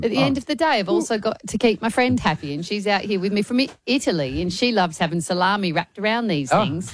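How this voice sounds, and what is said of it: Put-on Australian accent. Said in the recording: “with the Aussie flavour ... I can stay with that accent”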